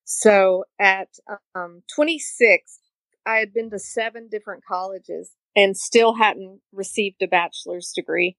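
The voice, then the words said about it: East Tennessee accent. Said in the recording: “Obviously by my accent, I'm not from Florida. ... from East Tennessee”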